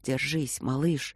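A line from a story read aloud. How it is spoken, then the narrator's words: Whispered. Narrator (Russian): прошептала его светлость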